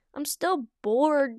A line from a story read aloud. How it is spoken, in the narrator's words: Duck Kit groaned